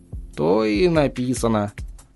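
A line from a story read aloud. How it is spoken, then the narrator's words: Mumbling. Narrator (Russian): пробормотал староста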